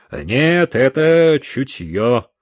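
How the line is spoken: Stern. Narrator (Russian): строго сказал сержант

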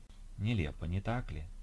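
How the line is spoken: Whisper from behind again. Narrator (Russian): вновь зашептал кто-то сзади

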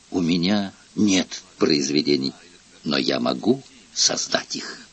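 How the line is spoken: Whisper in ear. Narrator (Russian): шепнул на ухо

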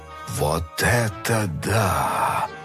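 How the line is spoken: Breathed out in amazement. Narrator (Russian): Выдохнул миллиардер

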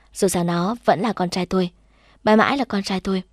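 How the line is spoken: Proud smiling speech. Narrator (Vietnamese): Tôi chỉ mỉm cười tự hào, bảo

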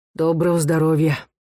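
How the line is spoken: Hoarse greeting, tall man. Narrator (Russian): высокий сутулый человек хрипло поздоровался

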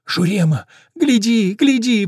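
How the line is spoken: Whimpering dwarf. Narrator (Russian): поскуливает карлик

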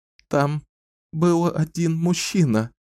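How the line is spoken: Sobbing. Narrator (Russian): выговорила сквозь всхлипывание Дюшаю

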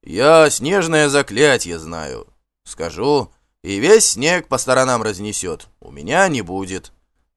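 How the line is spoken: Calm reply. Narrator (Russian): также спокойно ответил Ульф

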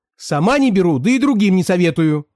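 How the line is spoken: Ominous shouting. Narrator (Russian): Она кричала так зловеще

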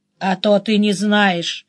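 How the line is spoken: Grumbling. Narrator (Russian): проворчал Денис

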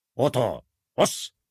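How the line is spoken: Grumbled. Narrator (Russian): проворчал Ораж

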